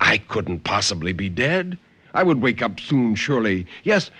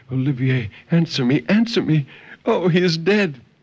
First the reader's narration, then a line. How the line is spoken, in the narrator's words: cried out repeatedly